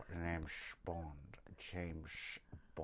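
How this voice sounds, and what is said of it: Poor Scottish James Bond impression. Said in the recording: “What about when Sean does it? He's Scottish. ... The worst James Bond accent I've ever heard.”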